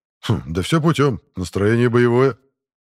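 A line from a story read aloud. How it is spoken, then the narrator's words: Wry snort. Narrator (Russian): хмыкнул Эрик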